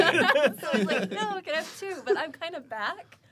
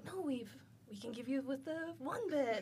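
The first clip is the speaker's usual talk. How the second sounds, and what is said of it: Put-on French accent. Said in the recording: “Your French accent.”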